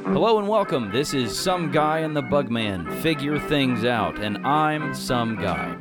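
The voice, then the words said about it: Announcer voice. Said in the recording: “I did it in my announcer voice.”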